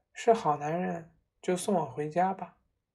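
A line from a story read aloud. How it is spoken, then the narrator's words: Soft, gentle voice. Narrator (Chinese): 潘靖柔声说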